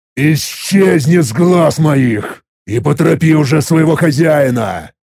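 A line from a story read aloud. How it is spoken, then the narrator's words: Angry hiss. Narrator (Russian): Зло прошипел я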